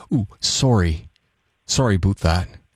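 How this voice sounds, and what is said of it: Put-on Canadian accent. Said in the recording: “Nobody liked my Canadian? ... I didn't even know what accent you were trying to do.”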